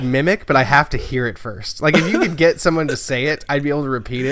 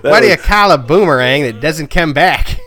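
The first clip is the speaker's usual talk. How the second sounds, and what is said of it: Poor fake Australian accent. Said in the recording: “That was the worst Australian accent I have ever heard.”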